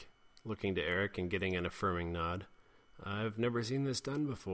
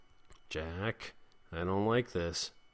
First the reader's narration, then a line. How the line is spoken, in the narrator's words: Jeremy said nervously